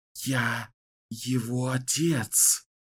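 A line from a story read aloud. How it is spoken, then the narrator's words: Terrified whisper. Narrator (Russian): в ужасе прошептал Рау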